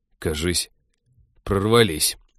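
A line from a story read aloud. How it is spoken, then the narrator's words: Muttered. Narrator (Russian): пробормотал Тед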